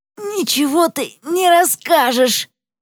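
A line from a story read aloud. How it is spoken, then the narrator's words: Hoarse, throat constricted. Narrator (Russian): Голос у нее хриплый из-за того, что сдавлено горло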